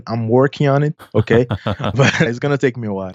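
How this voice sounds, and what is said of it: Slight Brazilian Portuguese accent. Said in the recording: “you have a Brazilian Portuguese accent ... I have a little bit of accent”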